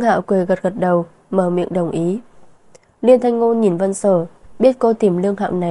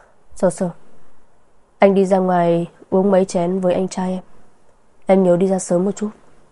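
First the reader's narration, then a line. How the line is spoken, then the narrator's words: Sighing, then smiling. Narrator (Vietnamese): Liên Thanh Ngôn thở dài, cười nói với Vân Sở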